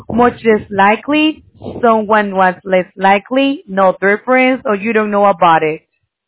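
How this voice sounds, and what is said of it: Heavy non-native accent. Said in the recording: “Your accent is too heavy for me to understand.”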